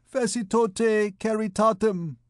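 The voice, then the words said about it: Nasal droning Hungarian accent. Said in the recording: “droned through his nose with a Hungarian accent”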